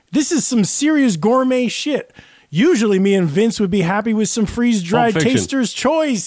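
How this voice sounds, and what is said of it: Imitates another person's voice. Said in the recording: “Was that Sam Jackson who did that line? Because you did a great impression.”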